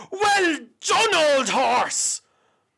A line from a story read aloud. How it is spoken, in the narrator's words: he shouted out